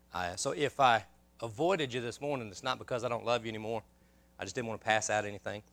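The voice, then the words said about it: Congested, hoarse voice from a cold. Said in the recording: “I've been fighting a sickness, a cold, and I've been congested, and I've been losing my voice on and off.”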